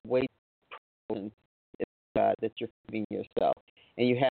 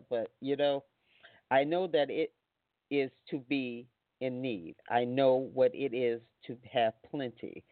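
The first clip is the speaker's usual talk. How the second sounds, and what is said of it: Choked-up, emotional voice. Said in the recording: “getting choked up”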